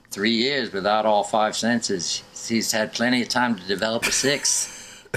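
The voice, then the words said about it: Bad put-on Australian accent. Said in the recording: “my horrible Australian accent”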